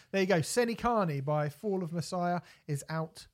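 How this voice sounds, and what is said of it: Bad put-on Northern Irish accent. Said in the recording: “I was doing a really bad Northern Irish accent.”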